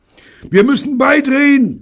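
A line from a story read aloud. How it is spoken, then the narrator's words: Bellowing. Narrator (German): brüllte Bunny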